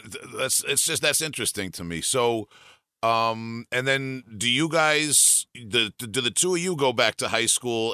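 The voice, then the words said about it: Long Island accent. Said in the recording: “I'm saying this through a Long Island accent”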